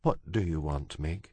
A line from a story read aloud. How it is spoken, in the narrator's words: the princess said softly